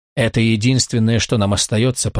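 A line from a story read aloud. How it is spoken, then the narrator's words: Sergeant mumbling. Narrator (Russian): пробормотал сержант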